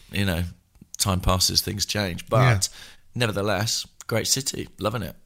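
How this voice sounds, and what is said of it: Voice mostly lost. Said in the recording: “I've lost my voice. I've mislaid it.”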